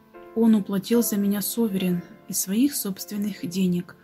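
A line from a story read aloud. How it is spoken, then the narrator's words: Plain. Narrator (Russian): сказал Том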